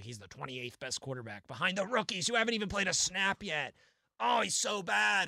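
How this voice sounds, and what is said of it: Imitates another person's voice. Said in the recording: “great Tim Benz impression”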